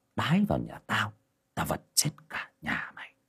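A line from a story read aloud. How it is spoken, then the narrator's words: Muttering. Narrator (Vietnamese): lẩm bẩm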